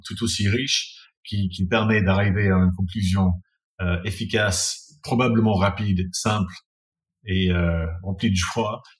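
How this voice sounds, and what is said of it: English-accented French. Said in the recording (French): “après avoir entendu ton accent pendant deux heures et demie, j'ai l'impression d'avoir parlé anglais ... c'est toi qui parles vraiment très très bien de français”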